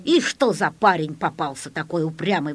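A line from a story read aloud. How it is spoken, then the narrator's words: Grumbling. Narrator (Russian): ворчал санитар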